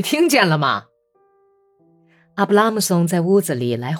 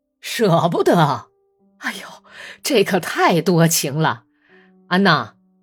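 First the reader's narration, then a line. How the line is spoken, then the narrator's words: Gloomy forced cheer. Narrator (Chinese): 本丘克脸色阴沉，强颜欢笑说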